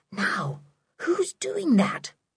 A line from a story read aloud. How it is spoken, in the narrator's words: whispered Sooty